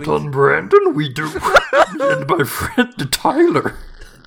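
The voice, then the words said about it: Yoda-style character voice. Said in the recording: “do the Yoda voice”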